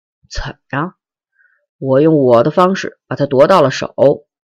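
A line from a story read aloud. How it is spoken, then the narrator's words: Angry, through gritted teeth. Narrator (Chinese): 边亚军愤怒的咬牙切齿的说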